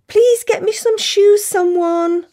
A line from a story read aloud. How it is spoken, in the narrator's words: I plead helplessly